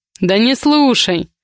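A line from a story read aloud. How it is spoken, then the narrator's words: Snorting. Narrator (Russian): хмыкнул Миша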